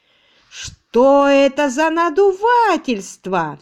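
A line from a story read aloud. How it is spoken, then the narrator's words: Crowd roaring. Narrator (Russian): взревела толпа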